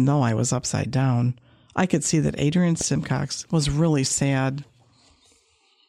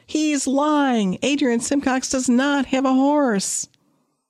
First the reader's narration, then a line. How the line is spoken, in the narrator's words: So I yelled from the monkey bars